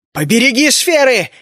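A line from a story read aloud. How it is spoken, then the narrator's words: Frantic scream. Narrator (Russian): истошно заорал я гремлину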